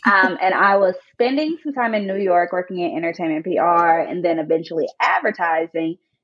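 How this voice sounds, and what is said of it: Nashville Tennessee Southern American accent. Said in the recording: “I am a Black woman from Nashville, Tennessee, hence the accent.”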